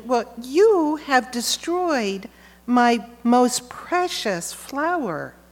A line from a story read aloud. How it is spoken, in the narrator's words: When the gardener saw what the little girl had done, he exclaimed